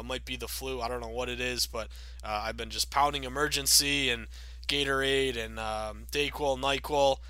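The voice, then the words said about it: Raspy voice. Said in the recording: “I'm going through a real tough cold right now... my voice is a little raspy or a little annoying”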